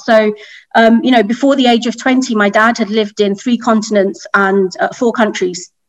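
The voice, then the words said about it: British accent. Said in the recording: “You may take away from my accent. I'm from the UK.”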